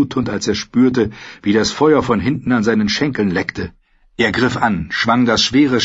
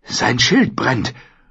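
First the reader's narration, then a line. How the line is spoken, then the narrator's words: Whispering. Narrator (German): flüsterte Gendry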